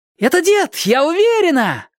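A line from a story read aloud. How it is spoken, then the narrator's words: Joyful yell. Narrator (Russian): радостно завопила она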